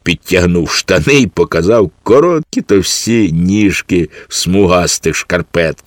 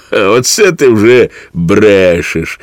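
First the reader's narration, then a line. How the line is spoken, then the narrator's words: Child laughing. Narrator (Ukrainian): засміявся малий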